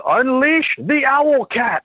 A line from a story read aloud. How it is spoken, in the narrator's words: the mad scientist yells